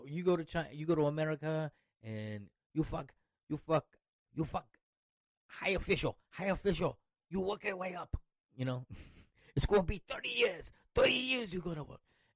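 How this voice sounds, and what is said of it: Poor put-on Chinese accent. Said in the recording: “it's a fucking shitty Chinese impression”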